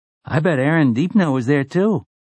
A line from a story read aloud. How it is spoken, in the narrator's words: Jake breathed